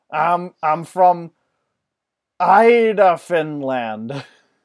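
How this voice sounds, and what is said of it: Attempted Scandinavian accent. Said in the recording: “Neither of us can do Scandinavian accents.”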